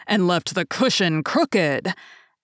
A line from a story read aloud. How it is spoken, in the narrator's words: growled the Father Bear in his great big voice